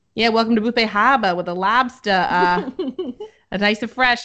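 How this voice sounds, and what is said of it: Exaggerated old New England accent. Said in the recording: “everyone who's like 60 or over, like to me, sounds like they have a Boston accent ... all the old men from my hometown are, like”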